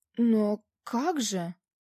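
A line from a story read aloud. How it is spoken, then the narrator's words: Confused muttering. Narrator (Russian): растерянно пробормотал режиссер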